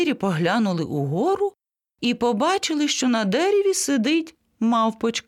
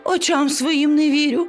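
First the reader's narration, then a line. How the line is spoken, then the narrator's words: Exclaimed. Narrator (Ukrainian): вигукнула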